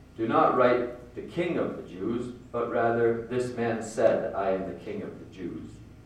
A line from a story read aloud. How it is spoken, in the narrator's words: Pilate answered